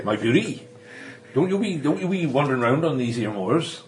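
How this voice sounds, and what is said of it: Put-on Yorkshire accent. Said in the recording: “Yorkshire accent”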